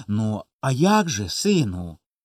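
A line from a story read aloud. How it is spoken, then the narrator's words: Father, kind and quiet. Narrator (Ukrainian): ласкаво й тихо казав батько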